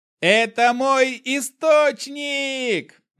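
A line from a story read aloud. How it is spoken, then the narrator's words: Joyful yell. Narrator (Russian): заорал я от радости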